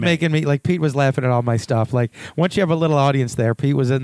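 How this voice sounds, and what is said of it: Usual voice. Nothing is said of it.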